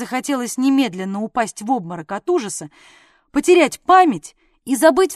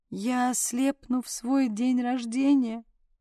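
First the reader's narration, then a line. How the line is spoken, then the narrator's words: Moaning. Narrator (Russian): простонала я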